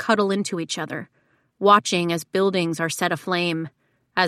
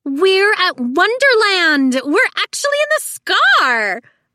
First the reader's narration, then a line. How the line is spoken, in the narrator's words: a girl squeals